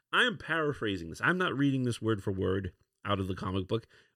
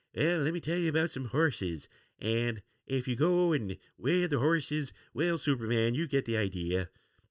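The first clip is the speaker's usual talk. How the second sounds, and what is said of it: Ronald Reagan impression. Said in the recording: “if you hear Ronald Reagan say it, especially in Ronald Reagan's accent”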